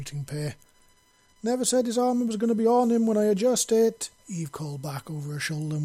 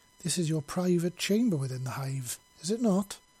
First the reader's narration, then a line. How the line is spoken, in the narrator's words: he asked softly